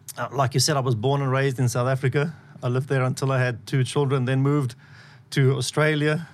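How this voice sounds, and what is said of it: South African accent. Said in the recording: “South Africans with my accent”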